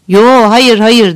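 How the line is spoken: Women shouting. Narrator (Turkish): diye bağırdı kadınlar

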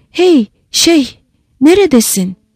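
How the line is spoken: Shouting. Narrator (Turkish): diye bağırdı

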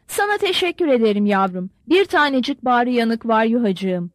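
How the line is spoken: Plain. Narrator (Turkish): dedi

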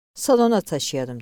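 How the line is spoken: Harsh voice. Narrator (Turkish): Sonra sert bir sesle

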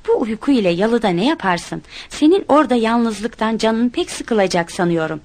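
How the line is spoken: Plain. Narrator (Turkish): dedi

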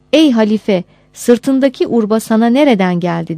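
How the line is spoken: Shout. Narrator (Turkish): diye haykırmış

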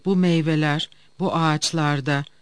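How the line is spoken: Stammered. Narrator (Turkish): diye kekeledi

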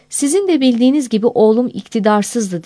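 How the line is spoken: Shouted. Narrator (Turkish): diye bağırdı

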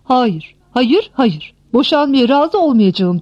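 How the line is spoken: Shouting. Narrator (Turkish): diye bağırdı

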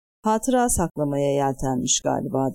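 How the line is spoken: Plain. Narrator (Turkish): dedi

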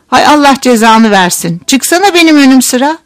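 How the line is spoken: Shouting. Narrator (Turkish): diye bağırdı

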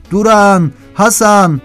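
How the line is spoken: Group shouting. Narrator (Turkish): diye bağırışıyorlardı

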